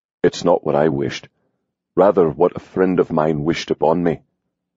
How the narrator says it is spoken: Hawk said softly

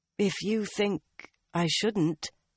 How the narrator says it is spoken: Nynaeve replied hesitantly

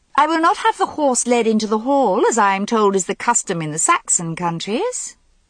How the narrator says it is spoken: Morgause said gaily

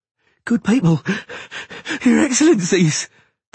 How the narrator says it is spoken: the cobbler panted

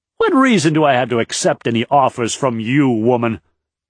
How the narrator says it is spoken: he snapped

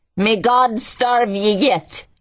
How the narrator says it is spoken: yelled an old Irish woman

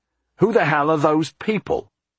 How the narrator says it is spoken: Jack said angrily

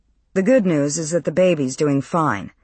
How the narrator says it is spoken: Lacey said

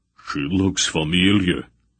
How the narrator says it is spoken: rumbled

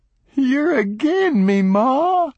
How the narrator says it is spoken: he bawled bitterly

